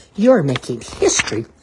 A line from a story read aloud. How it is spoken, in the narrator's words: Timothy exclaimed